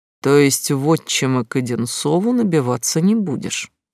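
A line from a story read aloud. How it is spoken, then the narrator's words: Calm. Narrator (Russian): спокойно произнес Латунин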